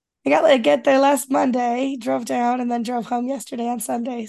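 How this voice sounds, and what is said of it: Voice worn, different than usual. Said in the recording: “my voice sounds a little different than usual, too, because 5 days of talking over crowds and dry, air-conditioned hotel rooms”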